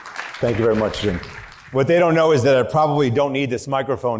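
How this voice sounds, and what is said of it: Loud New York accent. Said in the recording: “The only thing louder than his New York accent”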